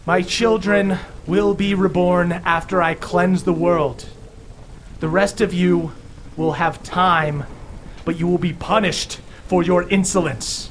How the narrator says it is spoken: Theala continues with a booming voice

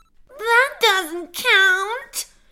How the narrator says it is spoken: she screamed

